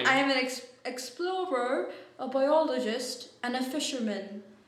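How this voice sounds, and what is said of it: Poor put-on British accent. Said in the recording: “I don't know why I just sounded like Bernie ... You would think my British accent would get better ... I have a shit British accent”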